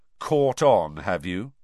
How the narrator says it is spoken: said Harry coldly

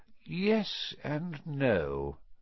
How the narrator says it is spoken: said Dumbledore quietly

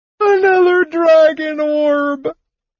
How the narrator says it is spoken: Tass wailed

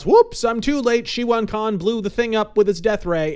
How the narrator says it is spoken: the Green Hornet shouts

